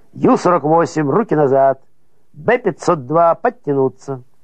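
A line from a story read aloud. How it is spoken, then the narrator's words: Guard shouting. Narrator (Russian): какой конвоир крикнет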